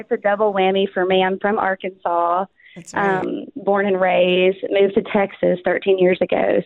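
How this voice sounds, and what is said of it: Southern American accent. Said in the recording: “someone from the South ... I'll bring a little bit of accent ... I tried to like kind of get rid of the accent ... this like double whammy of South”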